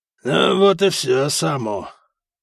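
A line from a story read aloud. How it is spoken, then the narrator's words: Hoarse wheeze, gurgling chest. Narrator (Russian): просипел Гарибальд, в могучей груди которого что-то клокотало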